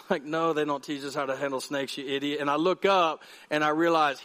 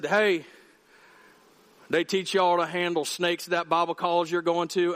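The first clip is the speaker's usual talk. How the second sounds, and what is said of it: Thick Appalachian Kentucky accent. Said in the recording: “was from the hills of Kentucky, like the Appalachian Mountains. And this dude had a thick accent. It was horrible.”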